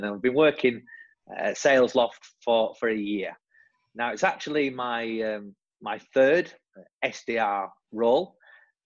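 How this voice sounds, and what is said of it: Northern English accent. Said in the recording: “I'm originally from the north of England, as you'll hear from my silly accent”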